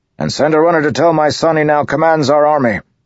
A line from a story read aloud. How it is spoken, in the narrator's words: he bellowed